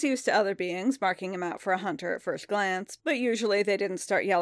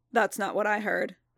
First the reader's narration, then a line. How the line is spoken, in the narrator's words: Din said, his voice flattened out by his helmet